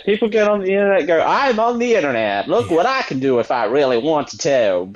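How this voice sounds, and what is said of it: Put-on Southern accent. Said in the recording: “you defaulted to the Southern accent when you did that”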